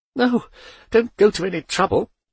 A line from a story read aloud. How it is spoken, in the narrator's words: gasped Poldi